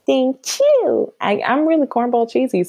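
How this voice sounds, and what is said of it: Voice rises much higher in pitch. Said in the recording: “my voice went up 4 octaves”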